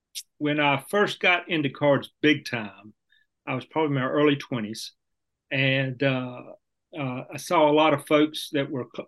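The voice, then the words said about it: North Carolina Southern accent. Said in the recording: “is from North Carolina, as you can hear in his voice.”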